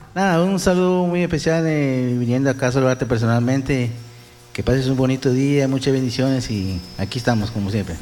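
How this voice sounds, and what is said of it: Radio announcer-style voice. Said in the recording (Spanish): “tienes una voz de locutor de Radio Ritmo Romántica”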